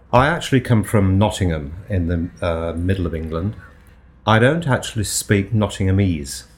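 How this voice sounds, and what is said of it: Rounded lilt, mixed English accent. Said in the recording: “What's that rounded lilt in your voice? ... I speak a mixture of all sorts of English that I've picked up in the past ... I've lost most of my Nottingham accent”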